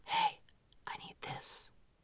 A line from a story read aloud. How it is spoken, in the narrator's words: if they're whispering